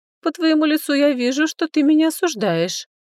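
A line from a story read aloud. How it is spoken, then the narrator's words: Ringing laugh. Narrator (Russian): звонко рассмеялась Ло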